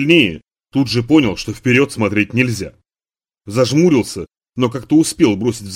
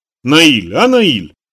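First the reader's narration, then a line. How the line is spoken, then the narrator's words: Cheerful repetition. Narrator (Russian): повторила Дилька весело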